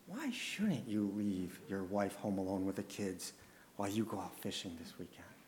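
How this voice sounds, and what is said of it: Sly snake-like tempter voice. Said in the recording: “a little fork-tongued accent”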